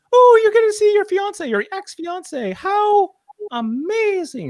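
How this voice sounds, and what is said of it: Imitates a character's voice. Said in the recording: “that's my Uhura impression.”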